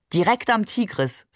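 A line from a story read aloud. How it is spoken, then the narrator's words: Plain. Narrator (German): sagte er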